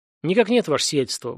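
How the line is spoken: Brisk, cheerful report. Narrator (Russian): бодро доложил Стас

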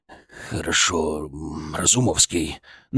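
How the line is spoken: Forced out reluctantly. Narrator (Russian): выдавил он из себя

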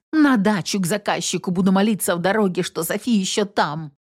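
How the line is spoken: Thoughtful mutter. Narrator (Russian): задумчиво пробормотал

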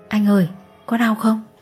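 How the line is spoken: Soft child's question. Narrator (Vietnamese): Bé Hạnh khẽ hỏi

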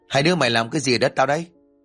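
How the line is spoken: Man's sudden shout. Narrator (Vietnamese): giọng nói của một người đàn ông liền quát

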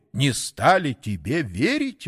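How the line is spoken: Astonished exclamation. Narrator (Russian): воскликнул изумленный сатана

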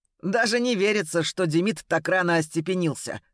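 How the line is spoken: Chuckling. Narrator (Russian): хохотнул Макс

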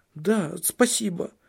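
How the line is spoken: Frightened blurt. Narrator (Russian): испуганно вырвалось у нее

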